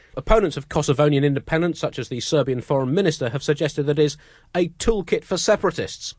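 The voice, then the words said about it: British accent. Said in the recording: “I keep getting teased for being British. ... I just love your accent. You sound ridiculous.”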